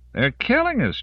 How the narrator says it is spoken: Jones cried

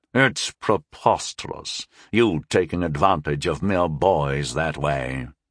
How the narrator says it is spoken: he growled scornfully

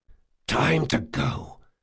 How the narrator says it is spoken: said Locke, lowering his voice to an urgent whisper

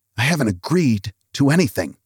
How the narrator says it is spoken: he whispered

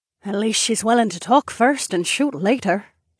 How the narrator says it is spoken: Sorsha mumbled

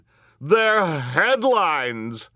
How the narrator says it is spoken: screeched Geraldine Julien

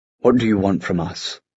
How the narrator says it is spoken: Gideon asked, his voice controlled

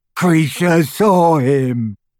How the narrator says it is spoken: gasped the elf as tears poured over his snout and into his mouth full of greying teeth

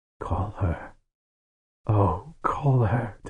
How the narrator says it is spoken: Tehanu whispered

